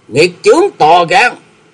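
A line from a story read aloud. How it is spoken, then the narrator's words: Angry shout. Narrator (Vietnamese): Trong tiếng quát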